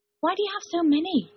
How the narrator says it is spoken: Wyndham said nervously

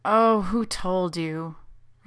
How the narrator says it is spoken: Rodney groaned

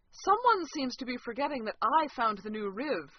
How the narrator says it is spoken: Franny said loudly from the back seat

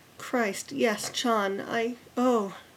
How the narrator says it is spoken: Rodney sighed

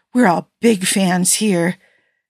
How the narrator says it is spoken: she tacked on breathlessly

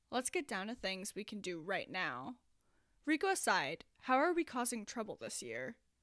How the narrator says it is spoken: Neil said, dropping his voice to an actual lower volume

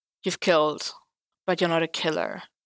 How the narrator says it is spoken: Matt sighed

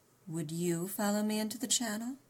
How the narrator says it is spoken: he inquired coolly

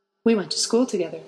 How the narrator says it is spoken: Harry said

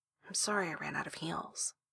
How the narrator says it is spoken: Ricky says quietly

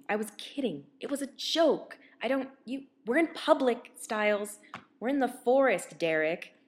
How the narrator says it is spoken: Derek says frantically

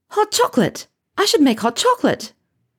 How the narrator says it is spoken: The biscuit is on her lips when she blurts

